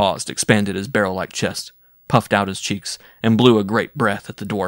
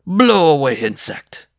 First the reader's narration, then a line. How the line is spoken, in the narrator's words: he bellowed